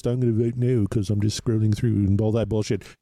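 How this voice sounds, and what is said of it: Bad put-on British accent. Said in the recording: “a fucking terrible British accent.”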